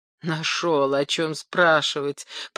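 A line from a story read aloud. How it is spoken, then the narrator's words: Grumble choking with anger. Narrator (Russian): пробурчал Поль, едва не захлебнувшись от злости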